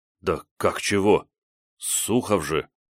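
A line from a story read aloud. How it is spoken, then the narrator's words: Young man mumbling. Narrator (Russian): промямлил парень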